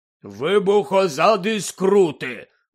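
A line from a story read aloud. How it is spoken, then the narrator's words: Grumble. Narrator (Ukrainian): буркнув Гегрід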